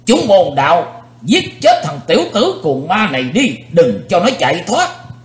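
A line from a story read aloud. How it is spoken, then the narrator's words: Old man's loud shout. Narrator (Vietnamese): lão nhân gầy ốm quát to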